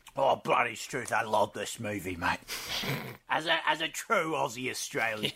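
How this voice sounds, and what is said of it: Put-on Australian accent drifting English. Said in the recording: “Why are you going like Cockney? ... My Australian accent's just slowly fading away. ... You got, like, Northern England there for a second.”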